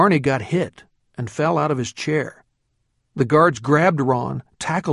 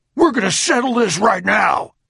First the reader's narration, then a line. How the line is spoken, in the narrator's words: deep, husky voice boomed